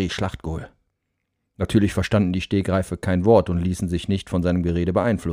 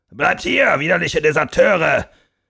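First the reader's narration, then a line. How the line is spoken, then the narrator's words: Bellowed after them. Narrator (German): brüllte der Oberst hinter ihnen her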